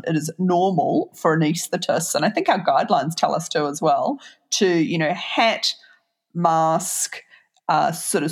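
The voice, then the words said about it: New Zealand accent. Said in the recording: “you say the Twitter with your New Zealand accent.”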